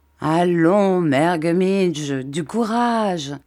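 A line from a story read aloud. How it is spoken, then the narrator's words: Plain. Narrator (French): dit monsieur Peggotty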